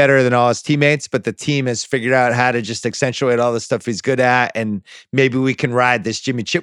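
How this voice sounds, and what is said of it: Usual voice. Nothing is said of it.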